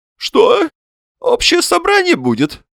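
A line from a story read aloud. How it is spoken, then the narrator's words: Thin high voice. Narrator (Russian): спросил Васисуали Андреевич тоненьким голосом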